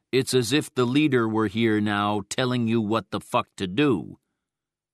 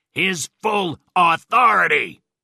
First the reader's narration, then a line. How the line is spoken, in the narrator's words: I yelled